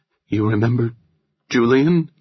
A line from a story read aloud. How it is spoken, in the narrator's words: Nora asked, her voice trembling when she spoke the name